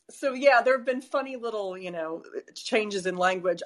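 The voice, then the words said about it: American accent. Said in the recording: “I think I still sound pretty American.”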